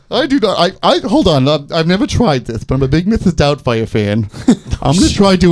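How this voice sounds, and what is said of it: Usual voice. Nothing is said of it.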